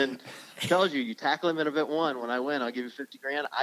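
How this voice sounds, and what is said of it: Usual voice. Nothing is said of it.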